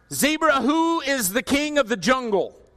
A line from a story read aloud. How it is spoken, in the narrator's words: he roared